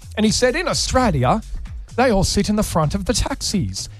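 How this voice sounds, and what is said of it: Good British accent imitating Rick Stein. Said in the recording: “a wonderful British accent, by the way. ... Yeah, like, really good. ... Yeah, like gorgeous. Yeah, 10 out of 10.”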